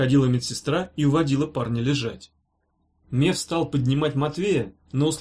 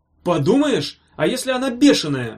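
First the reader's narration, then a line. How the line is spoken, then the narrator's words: Roared. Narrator (Russian): взревел первый голос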